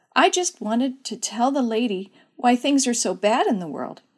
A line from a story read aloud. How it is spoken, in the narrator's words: said timidly